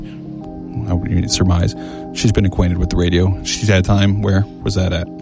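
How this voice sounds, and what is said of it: Flat monotone speaking voice. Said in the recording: “sit here, talk monotone voice”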